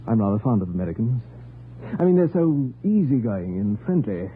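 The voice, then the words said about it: British accent. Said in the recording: “Are you British? ... Your accent,”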